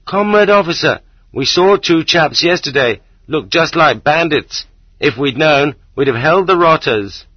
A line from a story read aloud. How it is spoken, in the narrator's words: The ordinary working man, the man with the bad leg, suddenly remembers and shouts after me